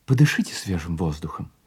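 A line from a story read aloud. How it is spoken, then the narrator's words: Plain. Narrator (Russian): сказал он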